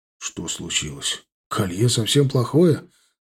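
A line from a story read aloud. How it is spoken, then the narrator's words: Confused question. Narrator (Russian): растерянно спросил Фердаус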